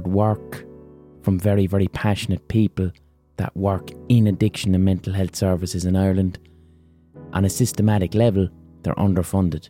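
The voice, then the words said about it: Irish Limerick accent. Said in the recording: “my Limerick accent”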